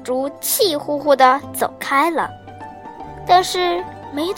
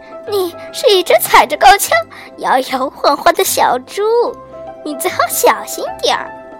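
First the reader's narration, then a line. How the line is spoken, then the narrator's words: Laughing. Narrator (Chinese): 斑马大笑着说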